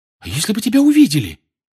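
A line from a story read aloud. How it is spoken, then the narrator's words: Frightened question. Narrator (Russian): испуганно спросила Гермиона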